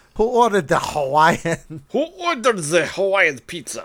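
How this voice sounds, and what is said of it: Put-on Russian accent. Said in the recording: “I wish I could do a good Russian accent... Yeah, that's much better than I could do.”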